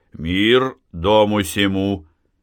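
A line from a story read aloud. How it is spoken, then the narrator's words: Deep booming voice. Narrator (Russian): Кузьмин забасил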